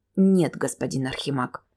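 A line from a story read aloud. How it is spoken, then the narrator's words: Restrained displeasure through teeth. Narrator (Russian): с едва сдерживаемым недовольством процедил сквозь зубы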